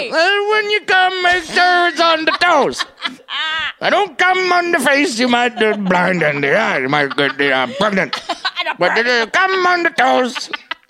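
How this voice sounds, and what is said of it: Not-great Bill Cosby impression. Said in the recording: “That's not even a good Cosby impression, but his voice is so absurd, it just works”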